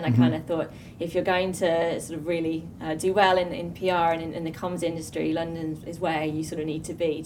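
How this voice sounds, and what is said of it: English accent. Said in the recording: “you're from England? ... Yeah, from England. ... Obviously, from your accent. ... So you can tell from the accent, ... I'm originally from Birmingham.”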